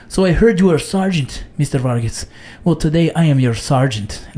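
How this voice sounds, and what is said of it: Attempted Mexican accent sounding French. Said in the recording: “You said it all French like that? ... that was supposed to be a really Mexican accent, but it went very French on me”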